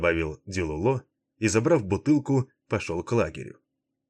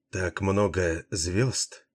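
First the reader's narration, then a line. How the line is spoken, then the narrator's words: Quiet soft speech. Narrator (Russian): тихо промолвила Врея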